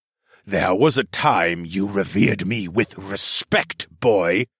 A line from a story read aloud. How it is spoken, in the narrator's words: Dolor growled